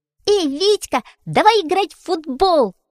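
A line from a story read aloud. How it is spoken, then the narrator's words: Shouted. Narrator (Russian): закричал Фитюлька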